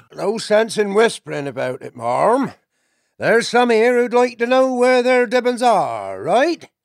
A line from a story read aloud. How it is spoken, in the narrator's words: The otter chieftain called out aloud